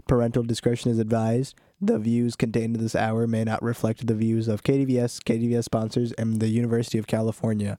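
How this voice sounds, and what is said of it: Sick-sounding voice. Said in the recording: “I'm a little sick, which is why my voice sounds like that.”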